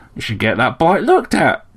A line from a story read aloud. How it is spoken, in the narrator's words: chirped the sparrow